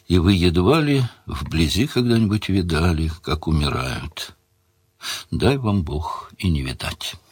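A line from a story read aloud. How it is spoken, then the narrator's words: Very quiet. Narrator (Russian): И совсем тихо произнес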